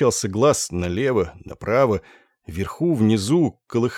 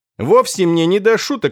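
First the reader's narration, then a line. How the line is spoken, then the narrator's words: Irritable snap. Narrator (Russian): огрызнулся режиссер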